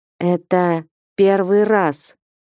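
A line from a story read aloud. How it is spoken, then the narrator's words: Sudden trembling voice. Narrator (Russian): дрогнувшим голосом вдруг сказал княжич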